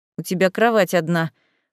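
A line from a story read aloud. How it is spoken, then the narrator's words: Unenthusiastic snort. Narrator (Russian): хмыкнул, но как-то так уже без должного азарта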